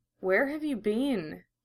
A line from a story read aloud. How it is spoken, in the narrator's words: he whispered